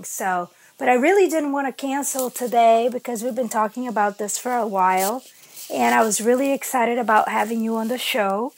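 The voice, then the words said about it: Harsh, slightly rough voice. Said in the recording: “my voice sounds a little bit harsh, but that's because we've had this change of weather and I have been with, I don't know, something.”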